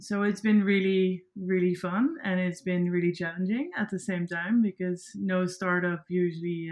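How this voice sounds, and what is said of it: Dutch-accented English. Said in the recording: “introduced yourself as a dutch girl ... your accent just felt so much like home ... I don't really like my accent ... I think it's a bit like it's a bit harsh”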